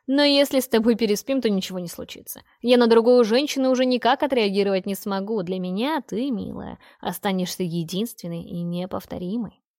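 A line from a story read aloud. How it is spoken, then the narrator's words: Loud demonic laughter. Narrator (Russian): захохотал демон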